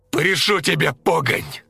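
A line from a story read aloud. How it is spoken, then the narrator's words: Shouting, choking with tears. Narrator (Russian): кричал он, задыхаясь от слез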